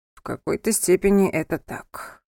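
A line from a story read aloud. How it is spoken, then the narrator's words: Weary voice. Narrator (Russian): устало произнес Анхель, вспомнив о недавних событиях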